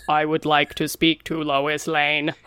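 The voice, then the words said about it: Flat robotic voice. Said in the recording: “he does like a robot voice”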